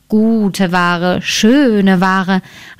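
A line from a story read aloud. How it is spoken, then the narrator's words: Plain. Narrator (German): antwortete sie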